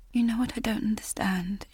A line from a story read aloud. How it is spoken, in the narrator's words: she whispered